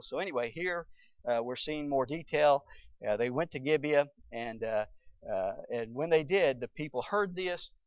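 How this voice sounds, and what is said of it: Southern American accent. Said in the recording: “You can tell I'm from the south.”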